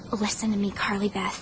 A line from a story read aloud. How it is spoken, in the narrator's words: she whispered